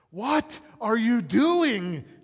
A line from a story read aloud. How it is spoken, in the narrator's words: shouted through his window, seemingly frustrated